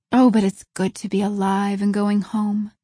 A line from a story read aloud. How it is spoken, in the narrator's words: breathed Anne